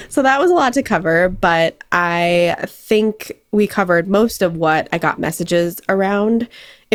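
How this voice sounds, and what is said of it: Hoarse, strained voice. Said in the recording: “Losing my voice. ... hopefully I'm not giving you the cold virtually.”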